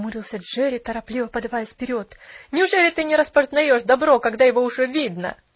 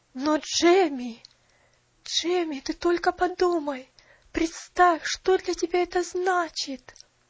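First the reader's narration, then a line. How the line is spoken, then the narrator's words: Trembling voice. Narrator (Russian): Дрожащим голосом произнесла миссис Мёрфи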